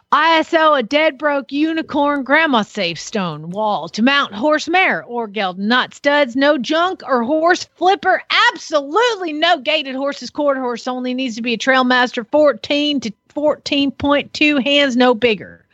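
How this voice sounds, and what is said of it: Put-on deep Southern accent. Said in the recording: “I don't even know if I can get as southern and deep as that needs to be”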